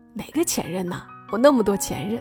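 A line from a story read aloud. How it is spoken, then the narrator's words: Joking tone. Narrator (Chinese): 他开玩笑的说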